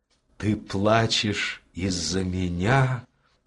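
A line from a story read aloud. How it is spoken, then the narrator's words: Whispering. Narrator (Russian): прошептал он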